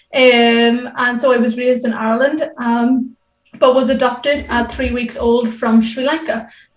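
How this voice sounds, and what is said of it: Irish accent. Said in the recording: “As you can probably tell by my voice, I am Irish.”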